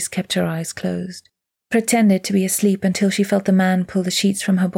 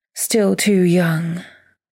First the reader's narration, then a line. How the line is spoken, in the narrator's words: he sighed